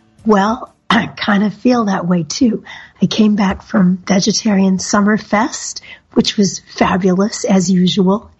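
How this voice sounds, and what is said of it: Hoarse, weak, nearly lost voice. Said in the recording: “I sound really awful... I had no voice at all, and I have so little one now”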